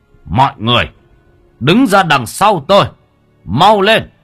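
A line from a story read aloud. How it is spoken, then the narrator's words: Shout. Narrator (Vietnamese): thầy hét lên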